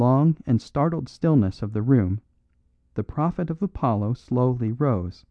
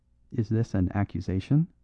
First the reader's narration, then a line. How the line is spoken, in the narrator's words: asked Calonne, very quietly